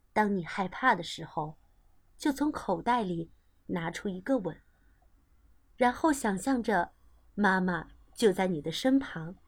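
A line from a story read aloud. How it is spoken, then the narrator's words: Gentle mother. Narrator (Chinese): 妈妈温柔着说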